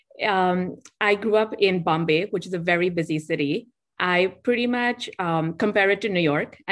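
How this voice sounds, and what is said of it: Indian English accent. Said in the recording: “I'm Indian, if you couldn't already tell from the accent.”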